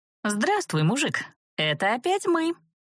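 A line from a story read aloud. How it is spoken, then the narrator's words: Joyful announcement. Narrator (Russian): Радостно объявила я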